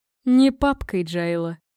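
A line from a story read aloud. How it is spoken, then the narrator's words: Smirking snort. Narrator (Russian): хмыкнул он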